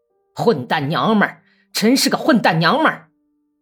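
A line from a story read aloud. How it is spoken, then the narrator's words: Thunderous deep cursing. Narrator (Chinese): 老头子 像打雷似的用低音大声骂道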